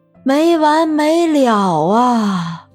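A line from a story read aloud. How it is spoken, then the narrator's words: Regretful long sigh. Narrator (Chinese): 不免后悔，长叹一声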